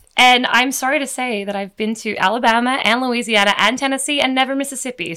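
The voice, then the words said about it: Australian accent. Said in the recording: “I hate my Australian accent on the podcast ... I love your Australian accent.”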